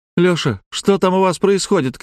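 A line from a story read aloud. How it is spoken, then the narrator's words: Shouted through a door. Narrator (Russian): крикнула Жанна из-за двери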